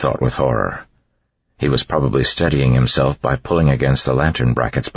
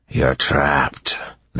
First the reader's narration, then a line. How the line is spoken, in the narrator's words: the Inquisitor said in a scratchy voice